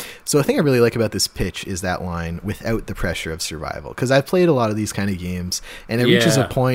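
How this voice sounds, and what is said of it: Usual voice. Nothing is said of it.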